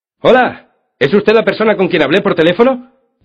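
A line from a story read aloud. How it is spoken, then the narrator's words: Man shouting from afar. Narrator (Spanish): gritó un hombre desde la orilla del agua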